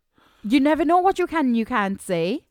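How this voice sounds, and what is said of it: Put-on Welsh accent. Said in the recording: “I don't know what accent that was. Was it a Welsh accent you just went into there?”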